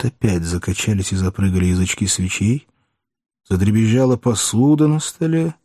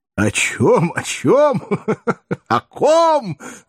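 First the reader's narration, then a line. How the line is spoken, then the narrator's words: Speaking after laughter stops. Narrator (Russian): заговорил Воланд, перестав смеяться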